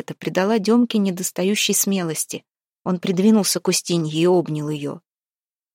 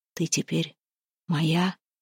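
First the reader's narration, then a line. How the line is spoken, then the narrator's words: Whispering. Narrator (Russian): шептал он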